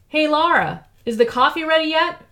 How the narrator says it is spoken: Vic called out from the living room

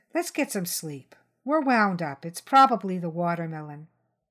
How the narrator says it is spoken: she said, in her most reasonable mom voice

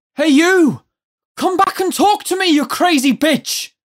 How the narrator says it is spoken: yelled

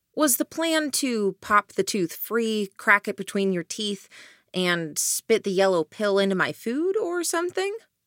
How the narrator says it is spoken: I asked

